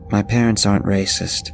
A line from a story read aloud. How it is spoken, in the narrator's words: she started, but was cut off